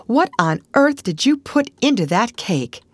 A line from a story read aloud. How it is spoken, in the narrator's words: she exclaimed